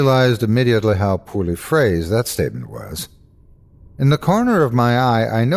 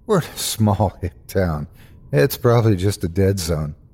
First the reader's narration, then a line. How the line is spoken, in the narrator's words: I faked a laugh and replied